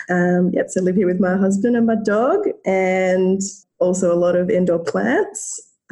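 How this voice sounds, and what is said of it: Australian accent. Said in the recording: “as you can probably tell by my accent, live in Australia”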